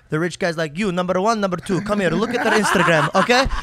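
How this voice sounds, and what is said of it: Put-on Middle Eastern accent. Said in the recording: “Why is he from the Middle East? ... It's the only accent that I know.”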